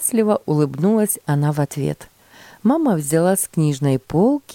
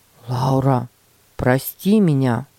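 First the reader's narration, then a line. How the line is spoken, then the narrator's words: Sincere sighing apology. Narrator (Russian): Петя вздохнул и, подойдя к сестренке, искренне сказал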